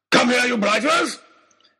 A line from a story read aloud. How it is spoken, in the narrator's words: he was shouting